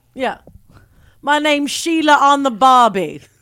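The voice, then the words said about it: Poor imitation of Australian accent. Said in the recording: “also not even kind of an Australian accent ... a lot of people think like I'm purposely doing a bad one to be funny”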